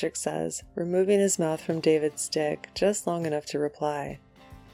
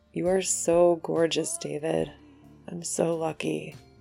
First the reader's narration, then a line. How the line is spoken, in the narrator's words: says, his voice rough with emotion and arousal